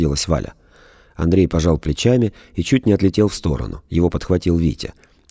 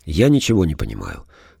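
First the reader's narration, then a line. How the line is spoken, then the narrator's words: Said with deep sigh. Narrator (Russian): сказал он, глубоко вздохнул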